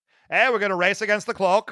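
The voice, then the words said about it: Put-on Boston Irish accent. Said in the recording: “Was that supposed to be Boston? ... it was a Boston Irish accent. ... I'm so sad to hear it did not land.”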